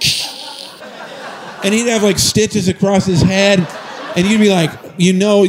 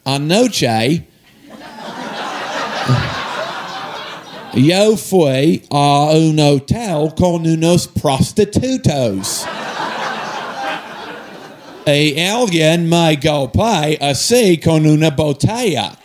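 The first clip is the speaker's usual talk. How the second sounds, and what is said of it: Spanish with thick Australian accent. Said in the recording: “in this Spanish with this really thick Australian accent”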